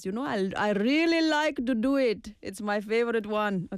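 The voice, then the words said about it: Cartoon character voice with accent. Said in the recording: “doing the King Julian voice ... King Julian's accent, for me, I don't know where the accent is from”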